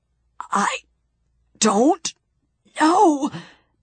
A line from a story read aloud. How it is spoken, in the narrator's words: he gasped